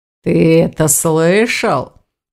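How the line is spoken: Snide drawl. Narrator (Russian): протянул Аристакес, ехидно

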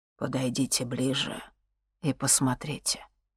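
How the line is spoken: Soft. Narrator (Russian): мягко произнес Лютогор

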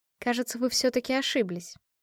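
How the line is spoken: Plain. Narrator (Russian): сказала им

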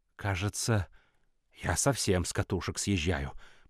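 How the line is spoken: Muttering. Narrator (Russian): пробормотал Пикеринг

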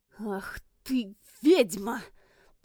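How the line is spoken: Hissed. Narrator (Russian): прошипел Аларис Кинстер

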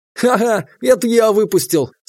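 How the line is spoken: Laughing confession. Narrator (Russian): сквозь смех признался имба

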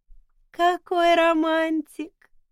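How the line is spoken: Cooing. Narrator (Russian): проворковала Сара

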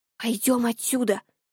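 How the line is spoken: Whisper. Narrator (Russian): прошептала

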